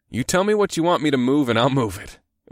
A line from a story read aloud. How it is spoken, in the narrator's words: chuckled